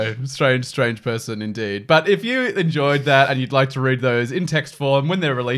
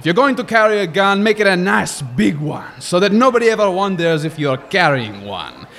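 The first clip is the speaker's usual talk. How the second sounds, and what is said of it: Put-on French accent. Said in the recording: “I was doing right with the French accent until get budgeted, where it might have gone a bit Scottish”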